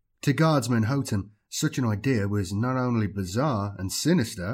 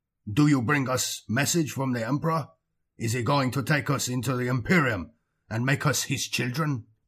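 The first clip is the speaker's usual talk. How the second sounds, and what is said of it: Thick accented alien voice. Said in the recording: “his thick accent”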